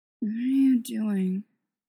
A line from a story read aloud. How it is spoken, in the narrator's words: he'd slurred